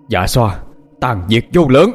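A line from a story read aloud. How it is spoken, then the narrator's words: Loud shout. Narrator (Vietnamese): Phúc Nguyên hét lớn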